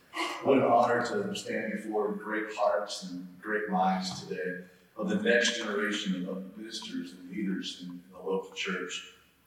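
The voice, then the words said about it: Low-toned Waco Texas accent. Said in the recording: “my Waco dialect is going to sound so much more boring ... my low tones of the Waco accent”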